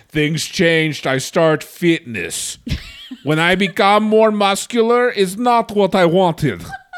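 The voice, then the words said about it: Put-on Russian accent, growing stronger. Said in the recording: “My accent became way more Russian as that sentence went on.”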